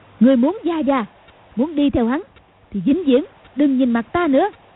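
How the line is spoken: Angry shout. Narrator (Vietnamese): Cầu Thiên Xích quát lên

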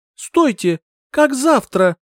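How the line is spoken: Shriek, woman. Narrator (Russian): визжала я

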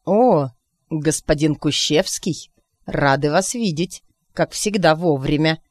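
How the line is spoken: Unctuous, oily tone. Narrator (Russian): Елейным тоном проговорил зверь

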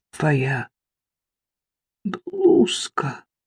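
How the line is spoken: Strained, barely audible. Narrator (Russian): еле выдавила Саффи

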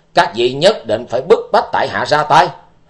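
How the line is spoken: Angry shout. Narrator (Vietnamese): Tư Đồ Văn giận dữ quát lên

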